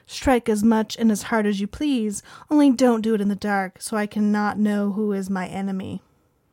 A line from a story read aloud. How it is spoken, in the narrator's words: Victoria coolly responded